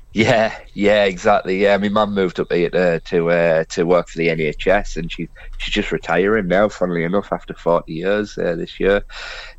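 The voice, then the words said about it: Regional English twang. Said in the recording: “That's why you've got that twang”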